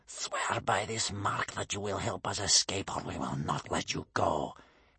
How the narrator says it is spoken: hissed Bear Cub's grandmother

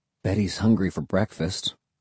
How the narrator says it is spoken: I muttered

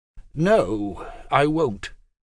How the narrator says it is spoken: she said firmly

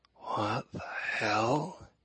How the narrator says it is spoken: He hissed

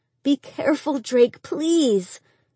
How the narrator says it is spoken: Angie whimpered

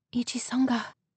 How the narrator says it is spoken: she breathed

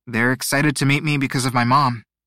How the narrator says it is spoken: he said

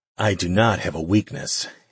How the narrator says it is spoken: he said a little breathlessly

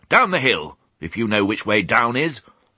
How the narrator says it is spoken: she snapped

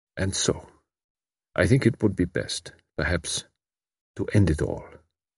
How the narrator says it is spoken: He added quietly

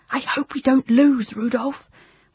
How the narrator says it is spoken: whispered Maddie

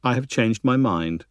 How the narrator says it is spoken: Todd said quietly

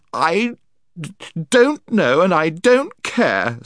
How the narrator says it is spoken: sobbed Jill

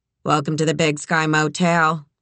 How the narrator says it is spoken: she said in a monotone

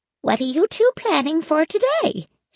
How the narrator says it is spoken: She asked brightly

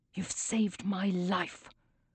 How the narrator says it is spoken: he whispers

